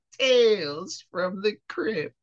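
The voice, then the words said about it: Crypt Keeper character voice. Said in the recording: “my Crypt Keeper impression... That's pretty good.”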